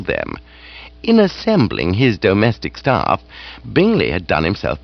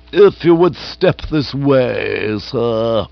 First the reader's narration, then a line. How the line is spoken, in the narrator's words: said haughtily